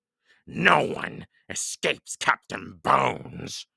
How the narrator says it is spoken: he roared

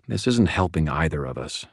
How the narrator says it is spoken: said quietly

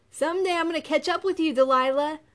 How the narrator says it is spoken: a voice Lily recognized as her brother Solomon shouted

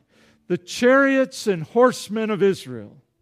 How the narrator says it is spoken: he cried

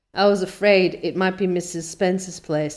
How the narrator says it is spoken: said Anne mournfully

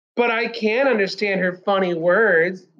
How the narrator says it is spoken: Raymond whined

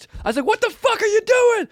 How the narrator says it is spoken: I screamed because I wasn't even trying to be like mean or anything

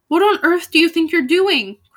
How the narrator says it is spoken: cried Igraine in terror

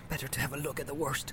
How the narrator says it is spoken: he muttered

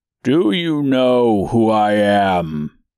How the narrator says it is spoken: asked the man, his voice deep and dark

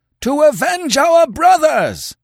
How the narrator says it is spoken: they howled

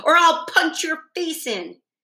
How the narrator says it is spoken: he snapped at her

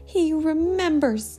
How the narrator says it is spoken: cried Daedalus Diggle

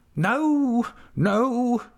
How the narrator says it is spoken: cried Mrs

